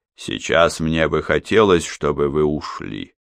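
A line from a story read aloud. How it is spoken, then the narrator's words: Even voice. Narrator (Russian): ровным голосом произнес он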